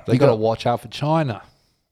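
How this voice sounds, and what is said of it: Very good put-on Australian accent. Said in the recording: “That was an amazingly good Australian accent. Very, very good. ... That was actually one of the better ones.”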